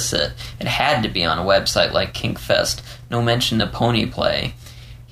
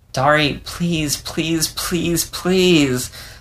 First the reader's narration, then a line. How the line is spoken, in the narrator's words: Leo whined